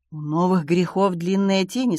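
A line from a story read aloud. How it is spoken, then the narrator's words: Plain. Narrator (Russian): сказала Таппинс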